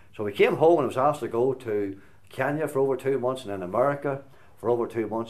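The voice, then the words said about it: Slight American twang. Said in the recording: “You maybe can hear the wee American twang a wee bit here at the minute. Haven't lost it yet.”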